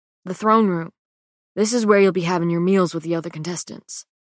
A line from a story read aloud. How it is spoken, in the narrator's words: Lenny murmurs